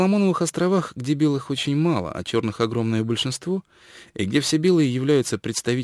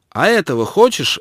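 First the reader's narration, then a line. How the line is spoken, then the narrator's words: Snapped. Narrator (Russian): огрызнулся он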